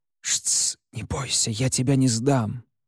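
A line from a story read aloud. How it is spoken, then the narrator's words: Whisper. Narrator (Russian): лишь успел шепнуть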